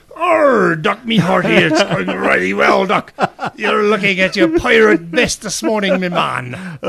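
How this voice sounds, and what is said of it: Playful pirate voice. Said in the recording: “talk like a pirate”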